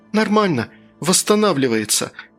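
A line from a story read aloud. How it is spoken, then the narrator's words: Joyful. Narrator (Russian): радостно ответила Лиза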